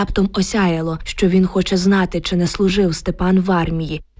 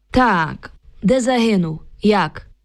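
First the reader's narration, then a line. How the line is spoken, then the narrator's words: Metallic voice. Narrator (Ukrainian): Солдат умить спохмурнів і заговорив металевим голосом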